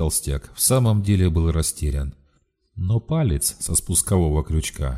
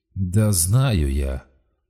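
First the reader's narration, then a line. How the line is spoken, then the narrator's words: Tired hoarse rasp. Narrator (Russian): устало прохрипел Шацкин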